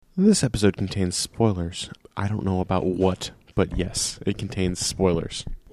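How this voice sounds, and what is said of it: Calm public-radio announcer voice. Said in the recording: “NPR voice”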